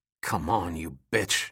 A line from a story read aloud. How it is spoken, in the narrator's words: he snarled